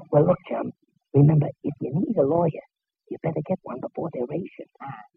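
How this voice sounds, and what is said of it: Whispering, voice lost to laryngitis. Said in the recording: “Why are we whispering? ... I don't know why you're whispering, but I got laryngitis”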